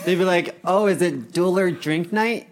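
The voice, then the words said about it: Put-on Canadian accent. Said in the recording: “Why do you sound like a gay Canadian?”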